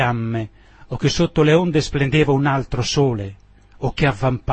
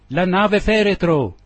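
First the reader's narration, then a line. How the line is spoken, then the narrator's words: Shouted together. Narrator (Italian): gridammo tutti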